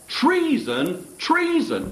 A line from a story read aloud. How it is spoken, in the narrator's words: she cried